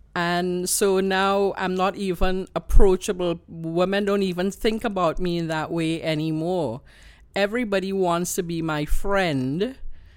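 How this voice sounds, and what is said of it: Trinidadian accent. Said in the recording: “I have this wonderful Trini accent”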